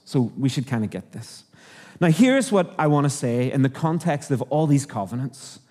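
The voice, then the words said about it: Northern Irish accent. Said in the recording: “hopefully you've heard it in the accent, I'm from Northern Ireland”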